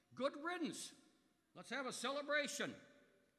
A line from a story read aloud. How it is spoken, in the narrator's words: those people will cheer at the spectacle, shouting